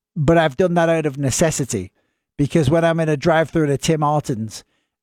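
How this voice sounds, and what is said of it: Northern English accent. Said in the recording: “the Northern accent is normally from England ... I've still got this accent”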